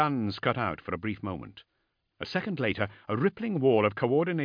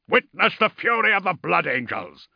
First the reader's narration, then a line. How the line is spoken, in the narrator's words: roared Ordemail